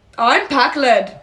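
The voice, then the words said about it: Put-on character voice. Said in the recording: “pack lead voice ... That's good. ... That's my pack lead voice.”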